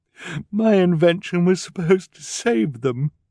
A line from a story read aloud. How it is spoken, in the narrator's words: she said mournfully